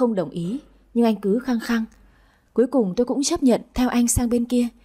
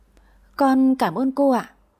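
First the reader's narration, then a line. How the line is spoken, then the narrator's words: Frightened girl mumbling. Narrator (Vietnamese): Con bé vẫn sợ hãi, lí nhí đáp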